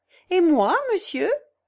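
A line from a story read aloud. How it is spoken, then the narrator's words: Laughing question. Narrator (French): demanda Jeanne en riant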